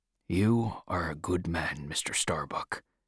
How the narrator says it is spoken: he said quietly to the mate

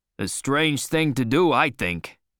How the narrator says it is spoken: said Stubb

